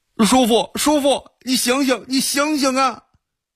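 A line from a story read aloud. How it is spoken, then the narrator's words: Shouting. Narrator (Chinese): 宋明 喊道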